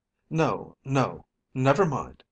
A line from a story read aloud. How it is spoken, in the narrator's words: I said hastily